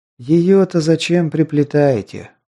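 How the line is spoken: Weary sigh. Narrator (Russian): устало вздохнул я

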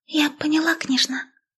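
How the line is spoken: Whispered. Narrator (Russian): шепнула она

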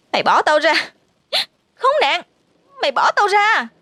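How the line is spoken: Screaming. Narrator (Vietnamese): thét lên

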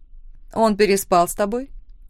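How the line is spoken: Sudden, rude. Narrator (Russian): внезапно грубо спросила Лора

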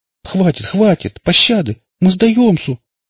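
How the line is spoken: Tearful pleading. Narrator (Russian): плаксиво взмолился я

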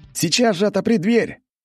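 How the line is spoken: Shouted while pounding door. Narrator (Russian): крикнул я, стуча в массивную створку

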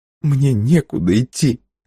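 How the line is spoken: Sobbing. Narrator (Russian): сказала Бланка со всхлипом

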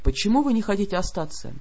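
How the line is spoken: Quiet question. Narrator (Russian): тихо спросил владыка

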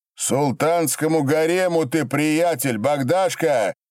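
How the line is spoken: Shouted. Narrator (Russian): прокричал Кочнев

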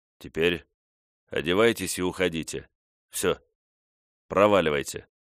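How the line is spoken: Calm, composed. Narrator (Russian): Корлис испугался своего порыва и, взяв себя в руки, спокойно произнес

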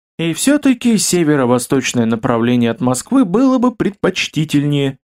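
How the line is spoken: Sigh. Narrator (Russian): вздохнул Кирилл

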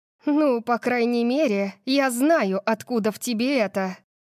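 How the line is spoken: Breathy exhale. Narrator (Russian): выдохнула я

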